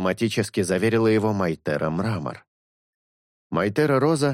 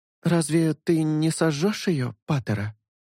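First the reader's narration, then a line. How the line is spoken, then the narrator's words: Timid small voice asking. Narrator (Russian): Робко осведомилась хрупкая, крохотная Майтера Мята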